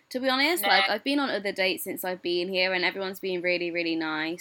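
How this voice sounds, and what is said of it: British accent. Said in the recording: “you're British. Like, oh my God, I love your accent”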